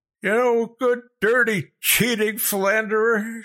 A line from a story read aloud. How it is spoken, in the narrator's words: screamed down at them